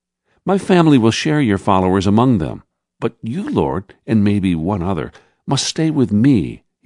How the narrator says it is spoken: he said happily

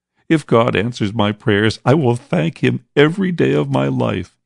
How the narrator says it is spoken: he sobbed

